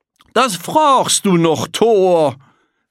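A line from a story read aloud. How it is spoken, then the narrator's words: Master shouting. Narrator (German): rief der Herr Prinzipal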